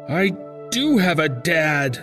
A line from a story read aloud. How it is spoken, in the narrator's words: yelled